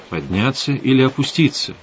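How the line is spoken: Plain. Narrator (Russian): спросил я

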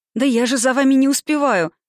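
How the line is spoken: Pleading. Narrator (Russian): взмолилась Саша

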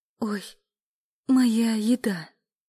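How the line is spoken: Moaning. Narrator (Russian): простонала Эля

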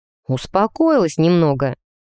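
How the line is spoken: Conciliatory tone. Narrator (Russian): примирительным тоном уточнил он

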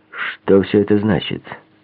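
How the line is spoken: Plain. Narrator (Russian): спросил он

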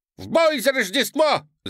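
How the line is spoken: Elves shouting. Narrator (Russian): закричали эльфы

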